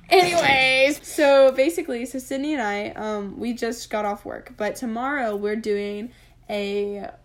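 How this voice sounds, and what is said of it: Raspy voice. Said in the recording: “my voice sounds so raspy right now ... sounding like a little boy going through puberty”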